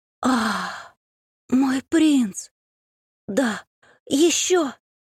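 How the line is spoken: Languid, slightly husky, distant. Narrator (Russian): Томный и чуть хрипловатый голос донесся из глубины опочивальни

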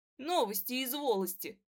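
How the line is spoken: Snorting with laughter. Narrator (Russian): выговорила Наташка и вдруг фыркнула над свои слова

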